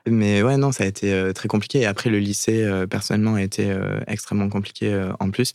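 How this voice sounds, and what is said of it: Slight regional French accent. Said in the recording (French): “le petit accent. vient de là.”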